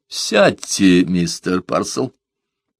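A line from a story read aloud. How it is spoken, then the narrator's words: Calm. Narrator (Russian): спокойно проговорил Мессен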